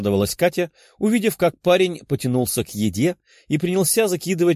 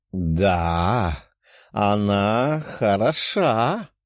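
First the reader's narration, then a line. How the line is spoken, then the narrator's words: Pleased purring. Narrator (Russian): промурлыкала довольная Лиза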